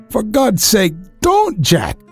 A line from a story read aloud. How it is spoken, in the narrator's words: she cried